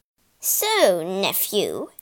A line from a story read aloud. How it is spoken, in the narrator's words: sneered King Pelias